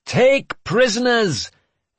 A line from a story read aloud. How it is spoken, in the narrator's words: I bellowed over the cacophony